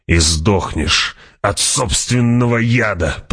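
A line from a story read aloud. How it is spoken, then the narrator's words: Snarling slave. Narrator (Russian): прорычал раб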